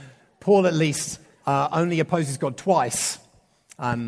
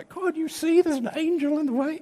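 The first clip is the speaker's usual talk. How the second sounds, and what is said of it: Not very good donkey voice. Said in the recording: “I don't do a very good donkey accent.”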